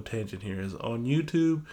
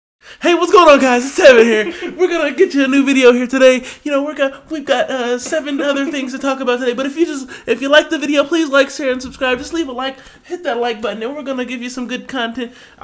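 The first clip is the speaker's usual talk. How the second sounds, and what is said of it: Loud YouTuber-style intro, yelling. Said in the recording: “when I see YouTubers starting their video like this ... I'm so sorry for yelling in your ear.”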